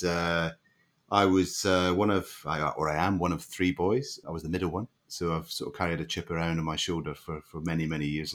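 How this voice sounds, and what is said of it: Scottish accent. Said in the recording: “as you might be able to tell from the accent, I grew up in Scotland”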